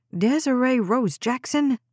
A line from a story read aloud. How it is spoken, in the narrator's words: Jade snapped, then paused to collect her breath